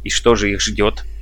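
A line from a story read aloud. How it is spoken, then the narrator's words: Sharp question. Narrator (Russian): резко спросил Снайдерханс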